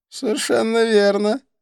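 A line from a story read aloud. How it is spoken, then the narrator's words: Laughing. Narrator (Russian): рассмеялся Идрис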